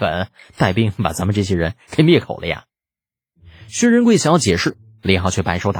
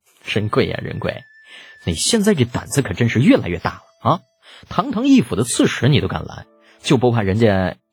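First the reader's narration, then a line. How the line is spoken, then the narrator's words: Amused laugh. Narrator (Chinese): 李浩指着薛仁贵失笑道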